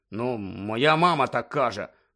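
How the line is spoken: Mumbled embarrassedly. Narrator (Ukrainian): пробурмотів Рон, і вуха в нього знову почервоніли

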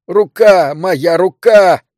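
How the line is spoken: Screamed. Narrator (Russian): завопил он

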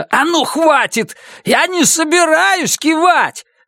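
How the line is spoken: Yell. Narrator (Russian): Завопил примус

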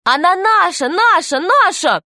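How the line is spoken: Children shouting. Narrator (Russian): кричали ребята

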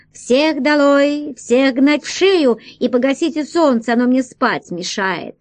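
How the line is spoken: Shouted. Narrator (Russian): король успел крикнуть

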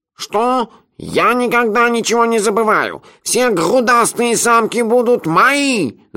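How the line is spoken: Yelling. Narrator (Russian): заорал изамонец

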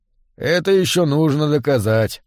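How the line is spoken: Grim. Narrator (Russian): мрачно сказал Мэн

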